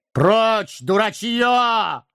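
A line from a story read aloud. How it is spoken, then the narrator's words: Shouting back. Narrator (Russian): крикнул в ответ Гэндальф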